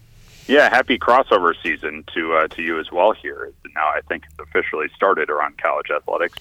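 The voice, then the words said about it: Slightly raspy, hoarse voice. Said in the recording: “Got my throat's a little raspy, but that temperature drop.”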